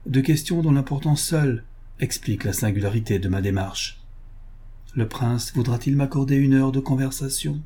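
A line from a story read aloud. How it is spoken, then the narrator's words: Cold. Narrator (French): dit froidement Olaf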